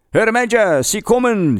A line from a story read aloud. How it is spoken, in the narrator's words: shouted a sentry